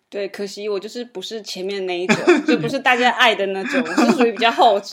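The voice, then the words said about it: Taiwanese Mandarin accent. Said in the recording (Chinese): “你们之后可以从我的口音里可能可以听得出来 ... 他是台湾人啊”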